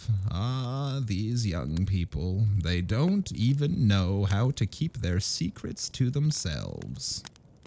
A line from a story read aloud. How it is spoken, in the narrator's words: sighs as though saying to herself